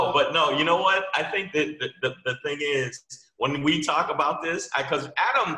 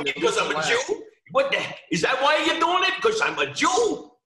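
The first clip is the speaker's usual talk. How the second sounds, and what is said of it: Put-on Jewish accent. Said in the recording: “that's a hell of a Jewish accent ... that was super Jewish. I had to put the voice there”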